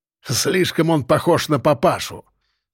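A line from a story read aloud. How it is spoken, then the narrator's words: Angry, barely audible mutter. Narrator (Russian): Зло хмыкнул субъект, через плечо бросил еле слышно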